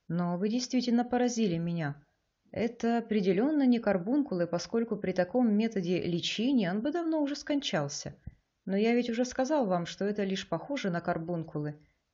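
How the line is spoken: Quiet. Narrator (Russian): тихо проговорил Эчим

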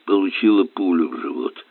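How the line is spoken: Grumbled. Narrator (Russian): буркнул инспектор

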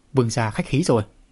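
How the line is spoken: Loud laughter. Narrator (Vietnamese): Lăng Thiên cười lớn

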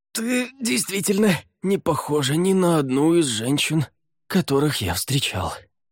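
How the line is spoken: Hoarse rasp. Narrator (Russian): прохрипел Лаверн

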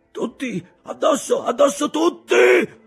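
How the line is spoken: Thunderous roar. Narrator (Italian): ruggiva con voce di tuono

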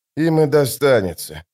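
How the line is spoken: Sighing. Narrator (Russian): вздохнул Остряк

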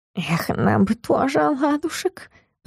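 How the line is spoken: Cat hissing. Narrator (Russian): прошипел кот

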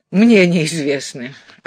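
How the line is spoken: Laughing. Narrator (Russian): Алекс засмеялся

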